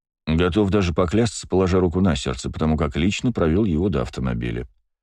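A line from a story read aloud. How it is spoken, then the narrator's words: Calm male voice. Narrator (Russian): спокойно ответил мужчина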